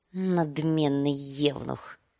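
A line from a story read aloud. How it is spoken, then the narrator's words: Muttering. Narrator (Russian): пробормотал Визерис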